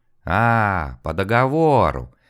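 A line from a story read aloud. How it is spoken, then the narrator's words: Ominous drawl. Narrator (Russian): зловеще протянул один, вероятно, старший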